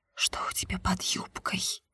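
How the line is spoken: Whisper. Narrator (Russian): прошептал Денис

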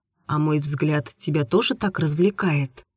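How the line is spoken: Embarrassed quiet question. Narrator (Russian): смущенно … тихо спросил

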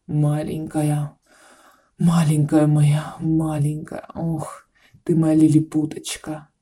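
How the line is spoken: Hoarse excited whisper. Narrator (Russian): Хрипя от возбуждения, шептал он ей на ушко

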